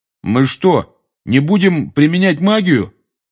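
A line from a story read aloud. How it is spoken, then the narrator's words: Loud question. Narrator (Russian): громко спросил Рон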